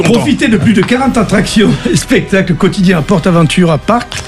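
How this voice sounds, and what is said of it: Reading an ad in a put-on accent. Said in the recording (French): “Avec l'accent.”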